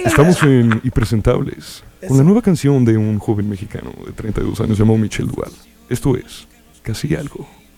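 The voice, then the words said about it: Radio announcer voice. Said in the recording (Spanish): “Con voz de locutor de radio.”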